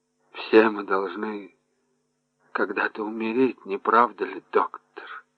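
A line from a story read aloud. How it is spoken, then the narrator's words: Muttering woman. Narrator (Russian): пробормотала женщина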